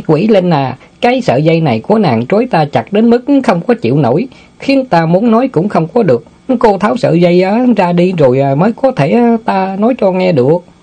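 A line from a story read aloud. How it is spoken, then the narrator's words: Chuckling, then speaking. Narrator (Vietnamese): Tiểu Ngu bật cười húng hắng mấy cái rồi nói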